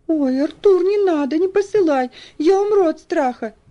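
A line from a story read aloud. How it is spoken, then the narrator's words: Nervous whimpering. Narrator (Russian): захныкал Уолтер, нервозно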